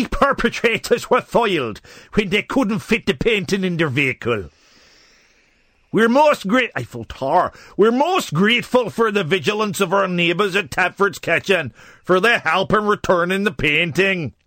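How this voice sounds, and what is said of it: Poor put-on Irish accent. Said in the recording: “that accent was quite criminal ... the accuracy of the accent ... sometimes I don't get my accents quite right ... We have a lot of Irish people listening”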